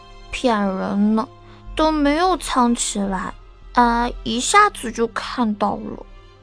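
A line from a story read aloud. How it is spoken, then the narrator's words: Sulky child mumbling. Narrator (Chinese): 一个小团子……不高兴了，嘟囔道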